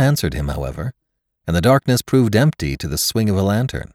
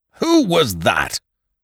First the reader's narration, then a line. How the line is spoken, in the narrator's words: snapped Ned Lowe